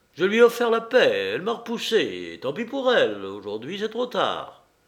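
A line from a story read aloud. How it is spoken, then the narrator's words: Harsh. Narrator (French): dit Marescal durement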